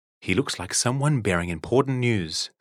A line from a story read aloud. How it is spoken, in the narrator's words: said Hazel